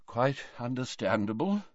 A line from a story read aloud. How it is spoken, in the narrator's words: murmured Dumbledore